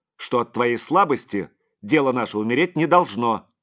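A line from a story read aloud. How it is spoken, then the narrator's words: Angry. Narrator (Russian): сердито произнес отец Серафим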